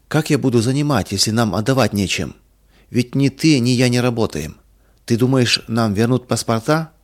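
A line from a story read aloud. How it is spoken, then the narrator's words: Calm question. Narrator (Russian): спокойно спросил Иван Михайлович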